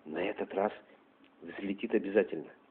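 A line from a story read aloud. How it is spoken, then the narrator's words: Whispered among group. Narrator (Russian): передавали друг другу, все шепотом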